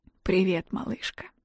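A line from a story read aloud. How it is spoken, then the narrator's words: Hoarse voice. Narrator (Russian): Хриплый голос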